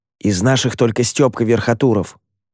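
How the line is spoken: Whispered in ear. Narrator (Russian): прошептал мне на ухо Ромка

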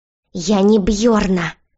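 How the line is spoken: Hiss turning into growl. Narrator (Russian): Шипение перешло в рычание

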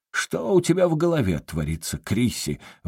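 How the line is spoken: Exclaimed. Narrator (Russian): воскликнул он

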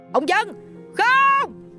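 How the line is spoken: Horrified group scream. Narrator (Vietnamese): Mọi người cùng nhau hét lên những tiếng đầy kinh hoàng

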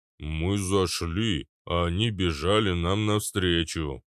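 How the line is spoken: Low booming. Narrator (Russian): прогудел Арнольд

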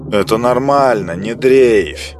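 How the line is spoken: Cold, curt. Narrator (Russian): холодно бросил Рамиэль

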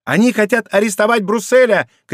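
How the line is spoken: Shouting. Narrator (Russian): кричал он

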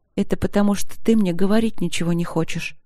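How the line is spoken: Hurt whisper. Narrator (Russian): обиженно прошептала она

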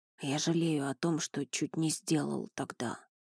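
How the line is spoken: Whispered confession. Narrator (Russian): признался он шепотом

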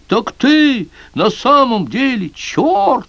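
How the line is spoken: Fearless shout. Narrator (Russian): Кузнец, увидев истинный облик своего зятя, забыв о страхе, закричал

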